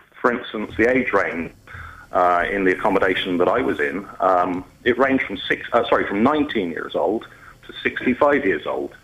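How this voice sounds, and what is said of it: Slight southwest English accent. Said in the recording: “Biddeford accent ... a little kind of southwest twang”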